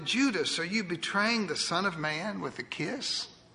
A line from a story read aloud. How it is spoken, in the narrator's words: Jesus quietly responded